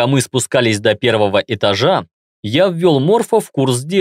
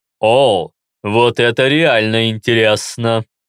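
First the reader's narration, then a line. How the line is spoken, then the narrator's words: Spiteful voice. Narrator (Russian): злобным голосом произнес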